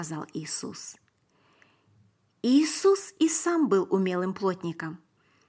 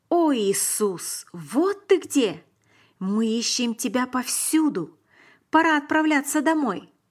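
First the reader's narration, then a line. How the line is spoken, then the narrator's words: Excited, breathless mother exclaiming. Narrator (Russian): мама Иисуса, Мария, вбежала в храм и взволнованно воскликнула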